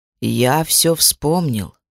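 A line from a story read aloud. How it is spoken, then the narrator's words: Slow reply. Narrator (Russian): ответил медленно Кростис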